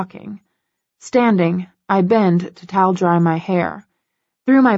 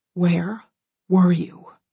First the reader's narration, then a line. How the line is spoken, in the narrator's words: He whispers, his tone arctic